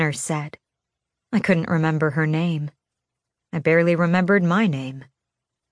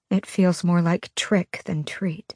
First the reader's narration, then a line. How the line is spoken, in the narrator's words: I said quietly so the kids didn't hear me